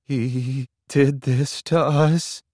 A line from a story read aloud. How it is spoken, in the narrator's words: Leslie says, her voice wobbling